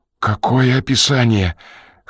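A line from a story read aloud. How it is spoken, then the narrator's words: Hoarse, forced out. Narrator (Russian): хрипло выдавил Ренли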